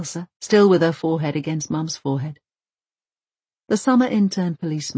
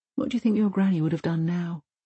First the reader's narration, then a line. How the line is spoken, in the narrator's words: asks Mum calmly